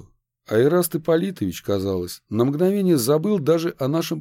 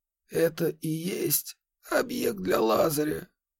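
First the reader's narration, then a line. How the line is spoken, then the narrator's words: Quiet question. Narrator (Russian): тихо спросил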